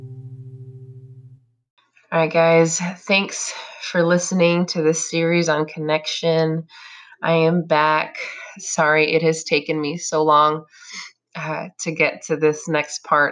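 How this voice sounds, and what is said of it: Congested, funky-sounding sick voice. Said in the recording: “I have been under the weather, as you can probably hear in my voice... It sounds a little funky and congested today.”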